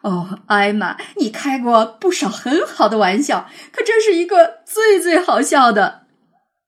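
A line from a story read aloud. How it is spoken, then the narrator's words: Old, breathless laughter. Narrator (Chinese): 一只老象笑得上气不接下气地说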